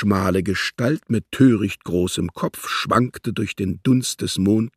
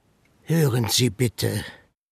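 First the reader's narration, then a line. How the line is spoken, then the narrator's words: Said gently. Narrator (German): sagte er sanft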